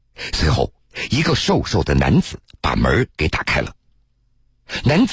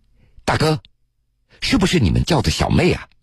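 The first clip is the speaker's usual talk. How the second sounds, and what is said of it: Heavy regional Chinese accent. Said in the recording (Chinese): “带着浓重的地方口音”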